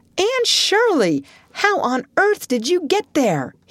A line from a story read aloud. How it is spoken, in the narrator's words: he exclaimed